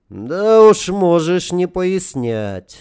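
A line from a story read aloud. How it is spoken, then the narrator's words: Old man sighing. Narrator (Russian): старик вздохнул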